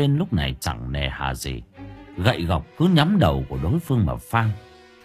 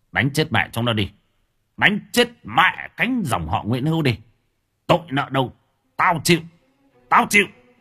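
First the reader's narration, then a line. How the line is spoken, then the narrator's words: Commanding bellow. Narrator (Vietnamese): Ông Vinh giống như là một vị tướng quân đang hò hét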